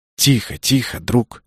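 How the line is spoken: Mutter. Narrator (Russian): забормотал я

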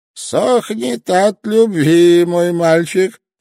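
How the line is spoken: Old man laughing loudly. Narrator (Russian): старичок расхохотался

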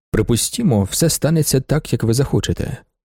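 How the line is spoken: Plain. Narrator (Ukrainian): сказав він

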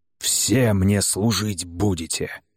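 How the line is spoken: Growled. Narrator (Russian): прорычал он

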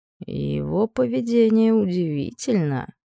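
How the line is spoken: Man's thoughtful drawl. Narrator (Russian): задумчиво протянул мужчина

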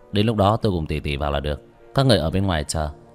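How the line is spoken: Cold scornful laugh. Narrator (Vietnamese): Vương Quân Diệt cười nhạt

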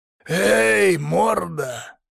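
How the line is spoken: Hoarse mocking jailer. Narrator (Russian): хриплый, насмешливый голос тюремщика Демьяна

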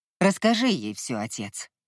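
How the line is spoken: Grim command. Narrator (Russian): мрачным тоном приказал Кай

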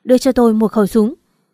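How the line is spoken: Shout. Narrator (Vietnamese): Lý Thiên Kim hét lên

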